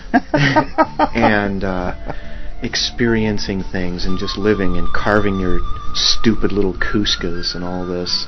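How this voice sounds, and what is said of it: Mock public radio announcer voice. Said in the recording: “putting on my NPR voice”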